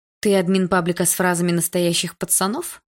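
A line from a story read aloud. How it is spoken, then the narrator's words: Plain. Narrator (Russian): спросила Синеглазка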